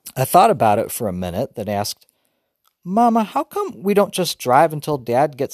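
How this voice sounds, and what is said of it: Usual voice. Nothing is said of it.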